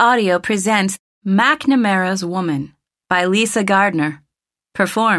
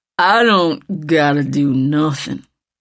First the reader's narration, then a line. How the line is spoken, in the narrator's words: the big man said sullenly